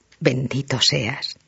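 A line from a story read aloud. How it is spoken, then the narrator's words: Murmuring. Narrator (Spanish): murmuró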